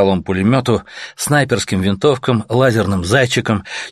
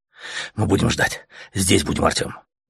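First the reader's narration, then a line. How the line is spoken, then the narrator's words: Fervent whisper. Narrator (Russian): Горячо зашептал летяга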